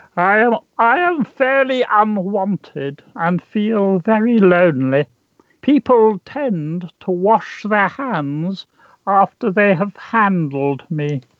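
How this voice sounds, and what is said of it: Put-on character voice. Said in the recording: “doing this voice”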